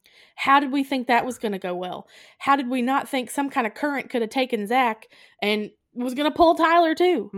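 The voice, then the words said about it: Regional accent coming out strongly. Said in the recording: “Can you hear my accent? It's making me angry.”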